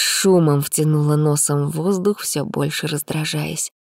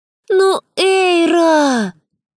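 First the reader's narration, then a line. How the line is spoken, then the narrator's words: Wailing. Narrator (Russian): взвыла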